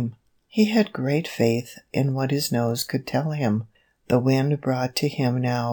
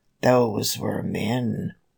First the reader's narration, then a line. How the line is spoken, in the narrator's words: growled Mother Bear deep down in her throat